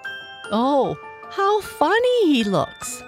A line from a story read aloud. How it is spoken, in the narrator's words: laughed the Calico Clown